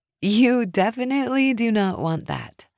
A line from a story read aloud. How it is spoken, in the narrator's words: I said with a chuckle